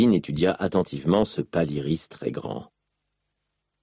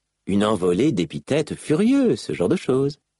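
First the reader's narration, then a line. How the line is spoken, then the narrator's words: Nonchalant voice. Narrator (French): ajouta Malice d'une voix nonchalante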